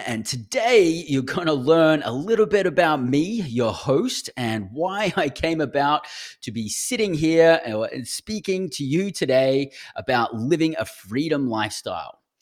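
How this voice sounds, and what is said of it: Australian accent. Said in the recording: “my accent is Australian. Uh, I'm an Aussie. I grew up down under. I actually grew up in Brisbane”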